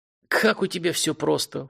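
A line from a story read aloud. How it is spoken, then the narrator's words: Snort. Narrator (Russian): фыркнул полковник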